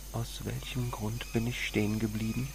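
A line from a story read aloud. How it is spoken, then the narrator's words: Whispering. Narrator (German): flüsterte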